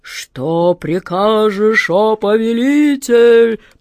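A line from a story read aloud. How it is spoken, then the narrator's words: Booming genie. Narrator (Russian): прогремел джинн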